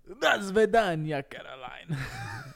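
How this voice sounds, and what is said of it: Put-on Russian accent. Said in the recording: “Do your best Russian accent.”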